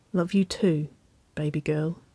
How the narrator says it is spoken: she murmured

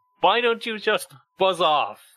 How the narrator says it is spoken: he shouts

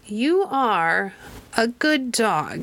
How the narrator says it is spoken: she said slowly

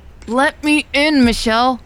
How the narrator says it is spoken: Elle yelled, growing impatient

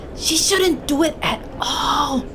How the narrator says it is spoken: Medina hissed

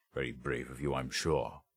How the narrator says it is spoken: muttered Berens

